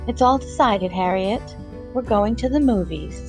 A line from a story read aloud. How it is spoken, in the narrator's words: said sweetly